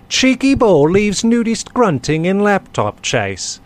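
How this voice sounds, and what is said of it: Put-on British accent. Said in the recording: “I have to read the title in a British accent”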